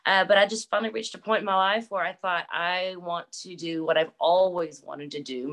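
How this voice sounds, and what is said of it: Texas accent. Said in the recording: “I could definitely tell you're from Texas. That accent's a dead giveaway ... When I'm tired, it gets worse ... it starts coming out just a little bit stronger and you start hearing my hick”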